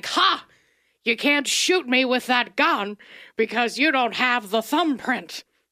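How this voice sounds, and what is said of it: Imitates another person's voice. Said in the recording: “That's my best impression I can do.”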